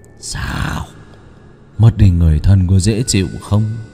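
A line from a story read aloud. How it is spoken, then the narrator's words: Harsh gritted voice. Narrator (Vietnamese): Lão gằn giọng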